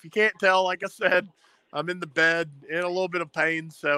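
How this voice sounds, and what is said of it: Usual voice. Nothing is said of it.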